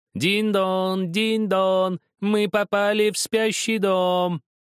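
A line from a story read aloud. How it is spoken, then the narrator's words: Sing-song shouting, outside voices. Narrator (Russian): закричали нараспев голоса снаружи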